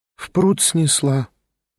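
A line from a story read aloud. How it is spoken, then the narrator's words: Sighing. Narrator (Russian): вздохнула она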